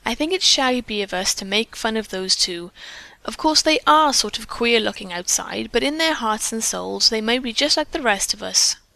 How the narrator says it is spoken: Gertrude said rebukingly

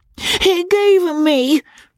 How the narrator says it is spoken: she cried

